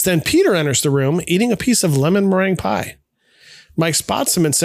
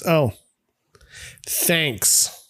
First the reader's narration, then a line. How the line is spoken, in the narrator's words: Mike sarcastically says